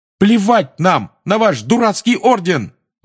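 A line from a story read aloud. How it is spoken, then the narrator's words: Shouting. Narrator (Russian): выкрикнул Фред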